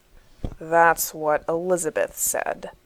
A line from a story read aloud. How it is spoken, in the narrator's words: John answers darkly